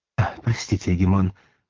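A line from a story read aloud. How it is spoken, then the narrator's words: Exclaiming. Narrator (Russian): воскликнул гость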